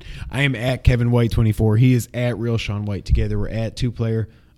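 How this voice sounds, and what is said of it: Hoarse, nearly lost voice. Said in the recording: “My voice is almost gone.”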